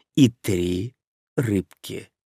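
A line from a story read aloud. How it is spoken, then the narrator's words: Quiet, to no one. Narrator (Russian): негромко проговорил, никому не обращаясь, Дин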